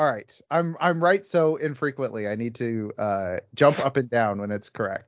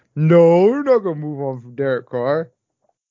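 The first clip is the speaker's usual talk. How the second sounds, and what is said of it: Imitates other people's voices. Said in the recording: “let me do my impression, my two co-hosts.”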